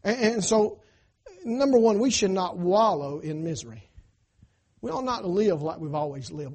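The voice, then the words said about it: Southern American twang. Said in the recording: “I'm probably never going to get that southern twang out of my voice”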